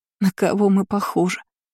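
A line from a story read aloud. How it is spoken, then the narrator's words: Sobbing. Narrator (Russian): зарыдала третья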